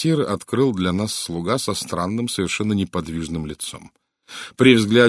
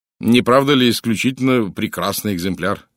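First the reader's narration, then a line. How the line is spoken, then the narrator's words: Plain. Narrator (Russian): спросил я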